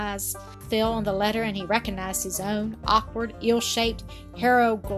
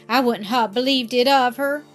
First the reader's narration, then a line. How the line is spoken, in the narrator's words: he exclaimed, crimsoning with anger and shame